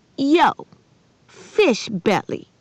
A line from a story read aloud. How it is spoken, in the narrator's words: Maniac snapped